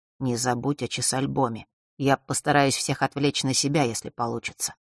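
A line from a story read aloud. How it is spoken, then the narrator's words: Quiet. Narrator (Russian): тихо произнес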